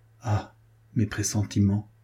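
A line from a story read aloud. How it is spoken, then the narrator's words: Murmured. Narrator (French): murmura-t-il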